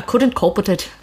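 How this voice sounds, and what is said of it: Put-on Irish accent. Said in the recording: “If you're an Irish person, please send me an audio clip of you saying that to me ... our accent is horrible ... you do sound pretty legit”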